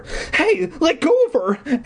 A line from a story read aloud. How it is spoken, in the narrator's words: Eddie cried